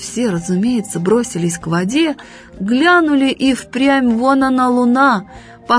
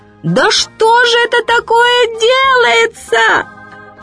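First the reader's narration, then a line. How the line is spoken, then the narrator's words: Sudden shout. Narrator (Russian): матушка Медоуз как закричит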